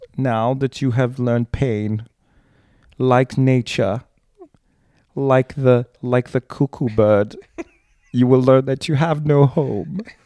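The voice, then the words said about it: Put-on accent slipping and inconsistent. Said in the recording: “my accent is falling apart because it's very late at this point. It's not tenable.”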